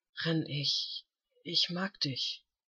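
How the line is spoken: Murmured against lips. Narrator (German): raunte er gegen die Lippen des Jüngeren

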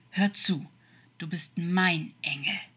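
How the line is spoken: Serious growl. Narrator (German): sagte ernst und knurrend

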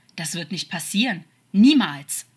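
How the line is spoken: Angry, snake-like hiss. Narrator (German): sagte Crawley noch immer wütend, und man könnte meinen, einen zischenden Laut am Ende zu hören, wie es bei einer Schlange der Fall war

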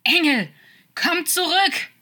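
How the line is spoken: Loud echoing shout. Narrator (German): schrie er lautstark und seine Stimme hallte in der Nacht wieder

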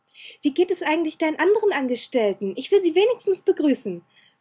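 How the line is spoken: Called out. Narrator (German): rief sie

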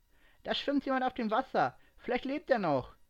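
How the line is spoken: Hurried call. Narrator (German): rief sie eilig ihren Freunden zu

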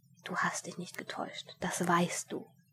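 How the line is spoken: Whispered. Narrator (German): flüsterte zu ihm

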